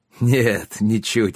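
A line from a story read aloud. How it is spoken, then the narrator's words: Roaring laughter. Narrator (Russian): хохотал отец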